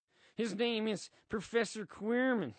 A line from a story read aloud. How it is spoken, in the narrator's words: he stutters, clearly a fan of Harry